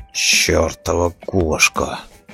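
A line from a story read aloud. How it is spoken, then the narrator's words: Grumbling. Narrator (Russian): проворчал Роди МакГрисл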